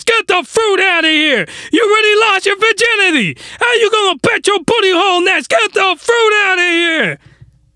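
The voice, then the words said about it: Angry, ranting delivery. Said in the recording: “I know I sound angry”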